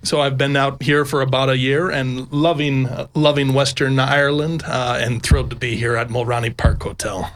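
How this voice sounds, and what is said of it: American accent. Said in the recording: “I'm picking up the accent. The accent is from Colorado in the good old US of A.”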